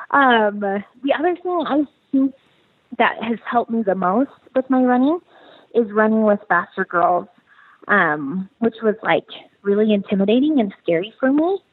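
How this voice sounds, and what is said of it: Out of breath while talking. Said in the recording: “I'm out of breath talking. ... I'm literally sitting on my couch out of breath.”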